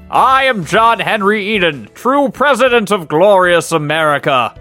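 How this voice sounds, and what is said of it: John Henry Eden with British accent. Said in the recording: “How does John Henry Eden sound? ... For some reason, I have a British accent.”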